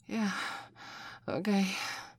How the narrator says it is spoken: Michelle gasped

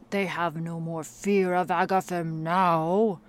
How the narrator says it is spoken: bellowed Grignar in his deep, mirthful tone, a gleeful smirk upon his face

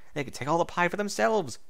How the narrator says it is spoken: she gasped

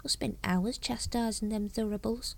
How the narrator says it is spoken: muttered Brother Dunnikin

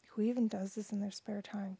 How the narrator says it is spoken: Quentin said

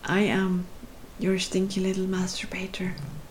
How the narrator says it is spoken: whispered

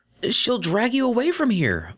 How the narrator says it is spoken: Vinyl said desperately

